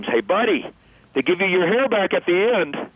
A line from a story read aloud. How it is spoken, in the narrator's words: he screams, much to the delight of the crowd, he screams